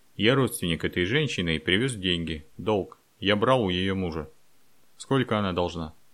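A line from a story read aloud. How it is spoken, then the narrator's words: Calm. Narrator (Russian): он спокойно сказал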